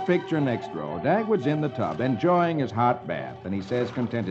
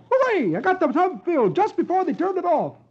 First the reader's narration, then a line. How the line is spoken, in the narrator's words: he exclaims